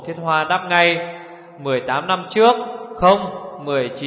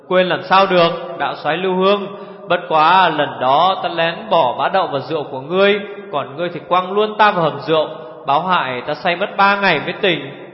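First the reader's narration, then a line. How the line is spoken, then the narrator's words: Loud laughter. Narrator (Vietnamese): Hồ Thiết Hoa cười lớn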